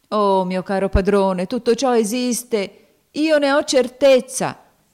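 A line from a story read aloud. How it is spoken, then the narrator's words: Exclaiming. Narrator (Italian): esclamò cadendo in ginocchio Tom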